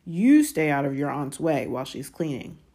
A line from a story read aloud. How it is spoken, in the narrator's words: he snarled at Harry